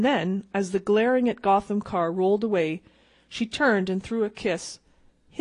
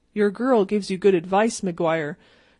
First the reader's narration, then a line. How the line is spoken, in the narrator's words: said Donovan